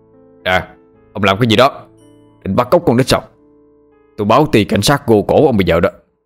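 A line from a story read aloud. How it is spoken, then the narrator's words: Shout. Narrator (Vietnamese): miệng quát lên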